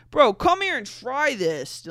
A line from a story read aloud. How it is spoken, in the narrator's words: Dylan shouted